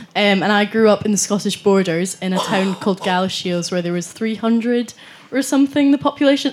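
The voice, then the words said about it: Scottish accent. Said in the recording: “I'm from Scotland. I don't know if you could tell by the accent already.”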